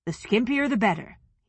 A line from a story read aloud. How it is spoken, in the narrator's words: he said